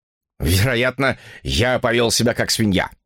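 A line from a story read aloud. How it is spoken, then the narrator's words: Angry. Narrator (Russian): сердито поговорил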